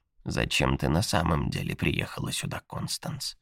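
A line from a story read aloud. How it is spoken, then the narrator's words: Very quiet question. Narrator (Russian): очень тихо спросила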